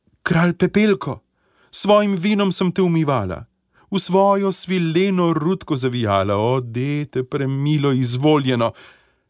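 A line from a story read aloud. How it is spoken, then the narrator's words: Calling out. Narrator (Slovenian): Kraljična zaklicala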